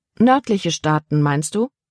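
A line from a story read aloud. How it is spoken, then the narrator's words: Plain. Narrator (German): fragte Libby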